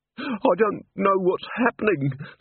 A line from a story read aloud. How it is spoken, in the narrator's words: sobbed Mrs